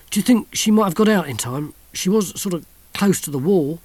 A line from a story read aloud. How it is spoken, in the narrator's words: moaned the soldier